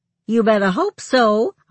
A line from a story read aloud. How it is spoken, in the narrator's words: I called back lightly